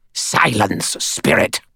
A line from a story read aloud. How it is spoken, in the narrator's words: Cowl said in a harsh voice